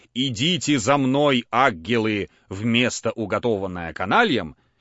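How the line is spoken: Sepulchral voice. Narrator (Russian): проговори он им гробовым голосом

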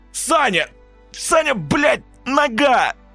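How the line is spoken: Howling in pain. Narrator (Russian): взвыл Серега, дернувшись от боли

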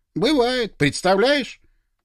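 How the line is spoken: Deliberately loud. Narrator (Russian): нарочито громко сказал

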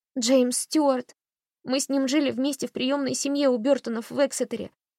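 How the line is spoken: Indistinct tearful sobbing speech. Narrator (Russian): Одри говорила невнятно, всхлипывая и захлебываясь слезами

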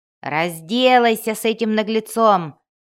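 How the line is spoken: Roared, brawler. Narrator (Russian): взревел один из стоявших вокруг драчунов

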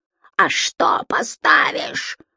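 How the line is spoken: Harsh rasping. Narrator (Russian): хрипит раздирающе

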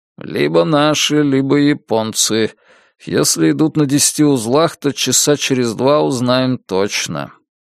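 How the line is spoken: Gloomy reply. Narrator (Russian): мрачно ответил Ризнич

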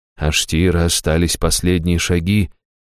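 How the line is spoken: Gentle interruption. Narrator (Russian): мягко прервал он

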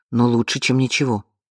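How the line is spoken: Muttering under breath. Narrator (Russian): пробормотала она себе под нос

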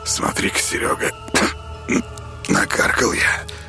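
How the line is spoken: Hunter's hoarse wheeze. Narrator (Russian): прохрипел охотник

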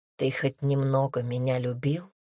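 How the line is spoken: Quiet, fearful question. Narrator (Russian): тихо спросила Эллен, страшась услышать ответ

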